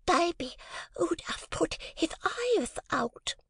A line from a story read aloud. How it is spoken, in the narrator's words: lisped the little girl